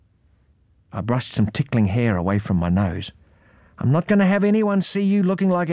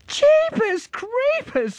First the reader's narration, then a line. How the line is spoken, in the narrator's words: squealed Irene